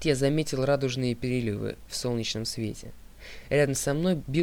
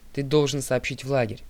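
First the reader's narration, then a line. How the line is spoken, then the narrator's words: Plain. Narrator (Russian): сказал Гроувер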